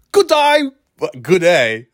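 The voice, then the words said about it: Attempted Australian accent. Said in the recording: “I can't do the accent anymore ... That's Australian.”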